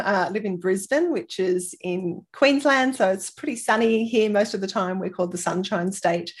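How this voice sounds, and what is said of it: Australian accent. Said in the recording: “if you can't tell with the accent, I live in Australia. I'm Australian.”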